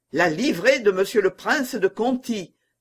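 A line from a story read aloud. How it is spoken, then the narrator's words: Exclaimed. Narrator (French): s'écria Blanc-Ménil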